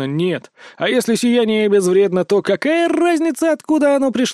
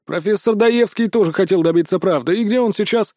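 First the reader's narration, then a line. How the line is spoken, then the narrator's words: Scoffing. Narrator (Russian): хмыкнул Боуман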